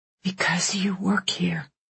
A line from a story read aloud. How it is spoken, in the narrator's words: Alice murmured